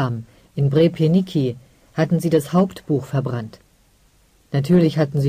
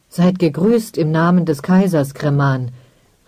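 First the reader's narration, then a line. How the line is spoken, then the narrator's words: Flustered call. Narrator (German): rief fahrig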